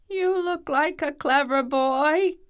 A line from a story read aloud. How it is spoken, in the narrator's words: gasped the devil